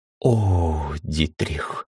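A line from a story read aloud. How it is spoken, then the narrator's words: Princess's delighted whisper. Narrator (Russian): восторженно прошептала принцесса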